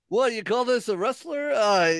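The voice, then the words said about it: Bad old Jewish man impression. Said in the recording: “My old Jewish man, terrible impression.”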